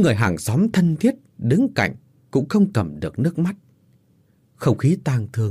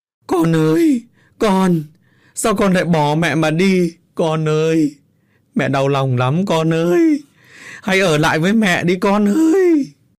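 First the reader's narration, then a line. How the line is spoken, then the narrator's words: Grief-stricken wailing mother. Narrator (Vietnamese): Bà Thơ thấy người ta đem xác con về thì gào khóc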